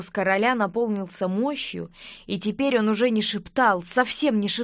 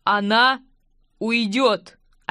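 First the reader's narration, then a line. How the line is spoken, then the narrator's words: Clipped, firm king. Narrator (Russian): отчеканил король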